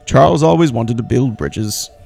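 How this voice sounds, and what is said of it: A good impression of a character. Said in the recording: “That's a good impression.”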